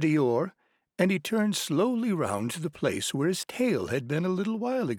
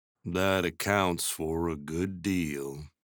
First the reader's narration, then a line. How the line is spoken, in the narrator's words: said Eeyore gloomily